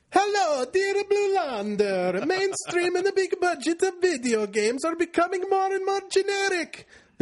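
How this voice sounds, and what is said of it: Mario-like stereotyped accent. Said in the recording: “offensive racial stereotype accent... more of a Mario”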